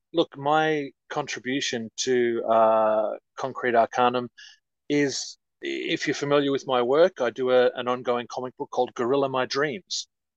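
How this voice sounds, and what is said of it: Australian accent. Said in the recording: “I'm ... from Australia. You can probably tell by the old accent.”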